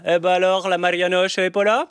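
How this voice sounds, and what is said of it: Burgundy accent with rolled r's. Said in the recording (French): “regardez comment je prononce les pas... j'ai débarqué de ma Côte d'Or, je roulais encore les airs”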